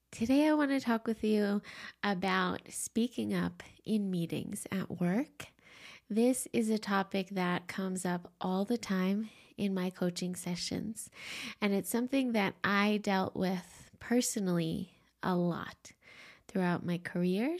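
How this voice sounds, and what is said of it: Congested, sniffly allergy voice. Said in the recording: “I've really been dealing with some juniper allergies ... You can probably still hear it in my voice ... Forgive my sniffling.”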